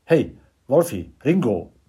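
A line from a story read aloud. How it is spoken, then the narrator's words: Calling from the bar. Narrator (German): ruft er ihnen vom Tresen aus zu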